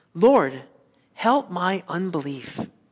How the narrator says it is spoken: pray earnestly in faith and cry out

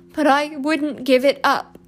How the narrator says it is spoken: he sobbed

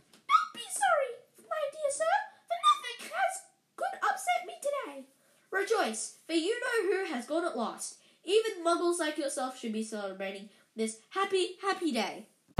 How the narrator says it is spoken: he said in a squeaky voice that made passerby stare

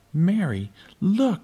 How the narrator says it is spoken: cried

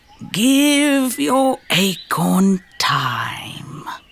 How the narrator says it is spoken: sighed old Mr

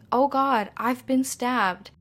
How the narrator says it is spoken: Kitty called out for help, saying

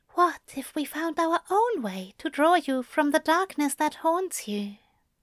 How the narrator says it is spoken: He whispered between kisses

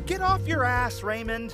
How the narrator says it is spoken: Mom shouted from the exit

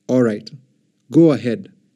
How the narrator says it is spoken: Pharaoh replied

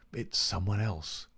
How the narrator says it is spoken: he muttered

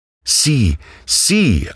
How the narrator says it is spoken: I cried

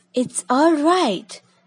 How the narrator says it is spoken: cried a voice

